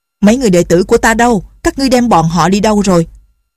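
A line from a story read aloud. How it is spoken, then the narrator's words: Angrily said. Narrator (Vietnamese): Định Tĩnh Sư Thái tức giận nói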